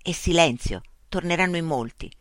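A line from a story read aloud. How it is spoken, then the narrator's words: Whispered. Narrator (Italian): sussurrò Mitch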